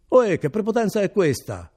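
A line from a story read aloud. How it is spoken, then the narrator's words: Shouting. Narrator (Italian): gridò Renzo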